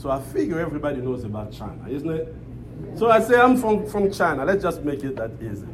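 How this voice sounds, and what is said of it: African-accented English. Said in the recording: “this African accent ... my Blackanese accent”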